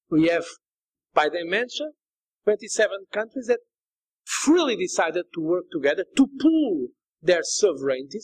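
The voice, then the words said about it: Portuguese accent. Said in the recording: “his sort of Portuguese accent”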